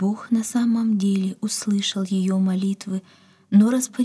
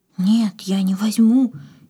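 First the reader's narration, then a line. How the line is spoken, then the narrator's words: Frightened. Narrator (Russian): испуганно отстранилась Катя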